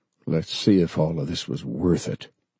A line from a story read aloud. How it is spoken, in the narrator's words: Bob said softly